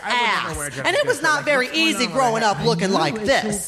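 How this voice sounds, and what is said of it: Texan accent from Dallas. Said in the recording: “As you can tell from my accent, I am from Dallas, Texas.”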